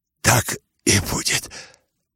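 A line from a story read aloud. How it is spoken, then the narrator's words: Quiet hoarse near-whisper. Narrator (Russian): тихо, хрипло и чуть не шепотом ответил Ипполит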